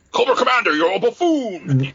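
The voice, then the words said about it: Good impression of cartoon villain Destro. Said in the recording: “I love the voice ... Destro's there ... That's a good impersonation right there.”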